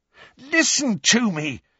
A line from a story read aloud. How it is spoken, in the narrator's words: said Harry, almost angrily, because Ron and Hermione were both smirking now